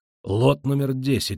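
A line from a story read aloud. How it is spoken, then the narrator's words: Loud announcement. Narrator (Russian): объявляет он громко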